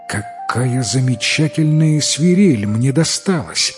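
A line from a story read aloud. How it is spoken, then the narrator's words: Boy's joyful exclamation. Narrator (Russian): радостно воскликнул мальчик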